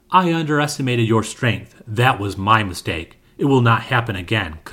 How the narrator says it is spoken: Kriger said

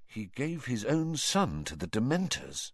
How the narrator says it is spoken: asked Harry quietly

